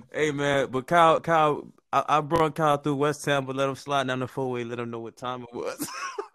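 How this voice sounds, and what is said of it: Florida accent. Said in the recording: “got a whole Florida accent”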